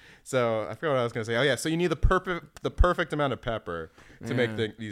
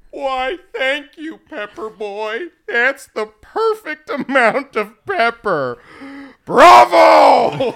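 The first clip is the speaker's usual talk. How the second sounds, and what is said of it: Imitates another person's voice. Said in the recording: “You have a great Farley. ... I'm kind of just mimicking it ... it's very good.”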